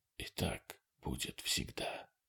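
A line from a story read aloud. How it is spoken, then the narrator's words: Barely audible reply. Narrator (Russian): еле слышно отозвался Хедли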